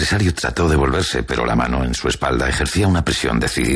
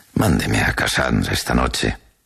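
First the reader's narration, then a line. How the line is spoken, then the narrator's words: Consoling tone. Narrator (Spanish): dijo en un tono consolador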